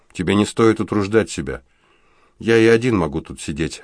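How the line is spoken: Indifferent tone. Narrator (Russian): равнодушным тоном произнес он

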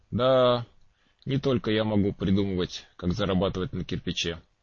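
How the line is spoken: Sighing. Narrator (Russian): вздохнул Мулла

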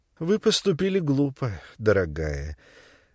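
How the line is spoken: Tender. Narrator (Russian): ласково сказала Хэтти

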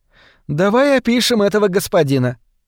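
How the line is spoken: Cheerful exclaim. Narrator (Russian): весело восклицает она

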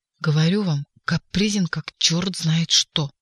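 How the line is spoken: Whispering. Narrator (Russian): зашептал Коровьев

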